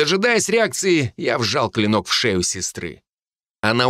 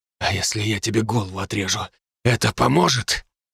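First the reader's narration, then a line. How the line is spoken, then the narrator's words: Hoarse rasp. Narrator (Russian): прохрипел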